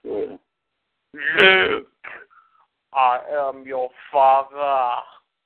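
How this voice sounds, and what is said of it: Darth Vader character voice impression. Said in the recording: “You want to hear this impersonation ... Darth Vader”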